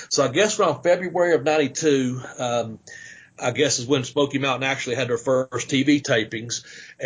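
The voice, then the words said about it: East Tennessee Southern accent. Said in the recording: “my accent and stuff... you talk like you're from Knoxville area”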